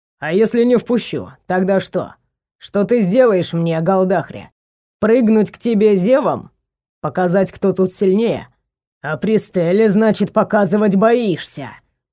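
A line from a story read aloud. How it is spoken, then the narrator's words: Growled taunt. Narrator (Russian): прорычал Варгор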